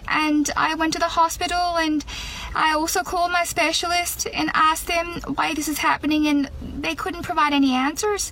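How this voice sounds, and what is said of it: Irish accent. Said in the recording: “she's got a very good Irish accent. It's a hard one to do.”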